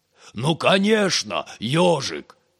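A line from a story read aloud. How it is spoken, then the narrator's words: Very loud shout. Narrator (Russian): крикнул червяк так громко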